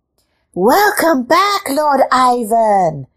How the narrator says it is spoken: the cats cried

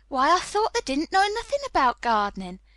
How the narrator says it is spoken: he exclaimed

